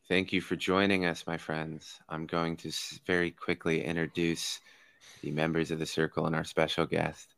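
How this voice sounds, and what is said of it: Flat, monotone delivery. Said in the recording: “I'm trying to see how monotone I can get this”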